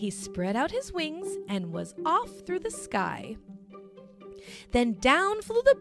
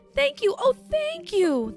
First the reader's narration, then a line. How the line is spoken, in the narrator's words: the grateful witch cried